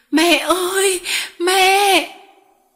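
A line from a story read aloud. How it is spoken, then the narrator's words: Crying out. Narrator (Vietnamese): Nó kêu lên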